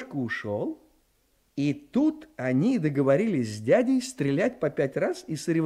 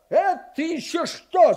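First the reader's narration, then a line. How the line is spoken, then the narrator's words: Shouting. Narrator (Russian): закричал папа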